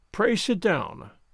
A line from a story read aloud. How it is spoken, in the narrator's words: Kovalenko said coldly